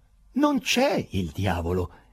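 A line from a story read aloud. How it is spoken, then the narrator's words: Confused exclamation. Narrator (Italian): esclamò Ivan Nikolaevich, confuso da tutto quel garbuglio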